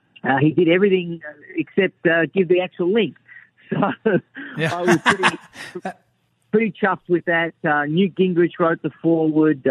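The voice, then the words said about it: Slight Australian accent. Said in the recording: “was born and raised in Australia. You might hear that slight accent.”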